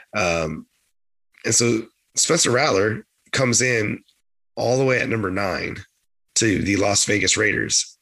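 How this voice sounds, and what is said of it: Gravelly, strained voice. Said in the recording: “I'm dealing with a bit of a cold ... my voice sounds a little bit gravelly ... It's struggling a little bit”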